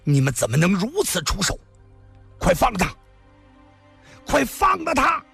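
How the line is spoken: Wild roar. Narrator (Chinese): 他狂吼着

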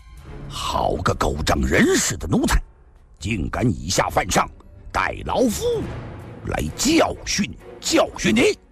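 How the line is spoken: Roaring. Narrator (Chinese): 吼声中，赵正义

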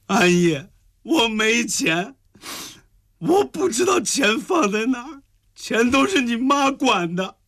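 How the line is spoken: Tearful complaint. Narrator (Chinese): 香江继续哭诉

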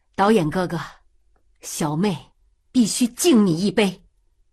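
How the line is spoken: Loud. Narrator (Chinese): 曾山大声说

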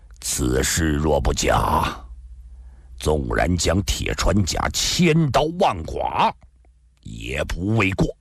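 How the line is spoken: Deep, grave voice. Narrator (Chinese): 赵正义沉声地说道

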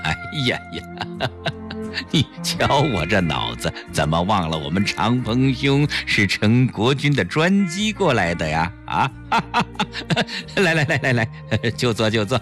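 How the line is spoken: Self-mocking laugh. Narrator (Chinese): 陈坤博自嘲地笑了笑

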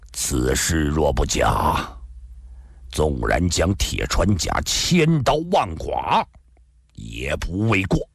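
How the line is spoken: Deep, grave voice. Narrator (Chinese): 赵正义沉声地说道

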